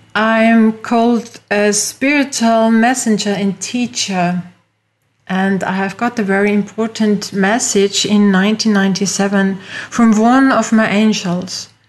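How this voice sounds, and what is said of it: Austrian-accented English. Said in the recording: “As you hear from my accent, I'm not from USA, I am from Europe, from Austria.”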